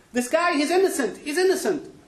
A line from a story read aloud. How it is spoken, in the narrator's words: suddenly, from the crowd, the guy shouts out